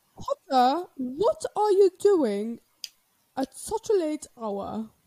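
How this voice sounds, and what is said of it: Weak attempt at British accent. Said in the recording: “my British accent. I'm not good at a British accent.”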